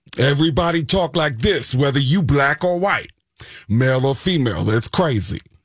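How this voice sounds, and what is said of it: Put-on Bronx accent. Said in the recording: “everybody in the Bronx talk like Tracy Morgan”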